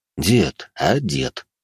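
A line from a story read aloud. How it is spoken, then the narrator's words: Quiet address. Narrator (Russian): негромко произнес Морозов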